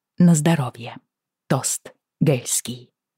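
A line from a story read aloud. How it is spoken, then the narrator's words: Whisper spreading through crowd. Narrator (Russian): Шепот разнесся по нашим рядам, словно ветер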